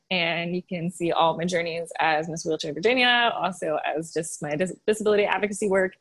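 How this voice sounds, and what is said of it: Light Southern US accent. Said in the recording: “your little southern accent comes out ... It doesn't come out all the time, but when you're like super happy”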